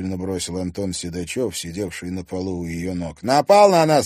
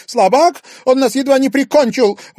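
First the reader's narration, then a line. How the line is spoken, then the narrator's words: Exclaimed. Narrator (Russian): воскликнула Милана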